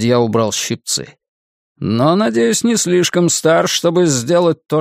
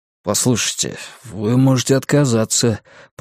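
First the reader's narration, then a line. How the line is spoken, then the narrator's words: Mumbling. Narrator (Russian): пробормотал Ларри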